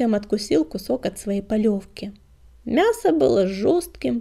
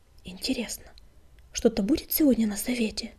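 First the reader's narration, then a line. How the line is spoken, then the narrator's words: Whispered into ear. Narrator (Russian): шепнул он в серое ухо друга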